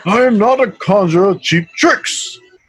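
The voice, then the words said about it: Imitates Gandalf's voice. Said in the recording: “You gotta do that Ian McKellen voice, but like the Gandalf one.”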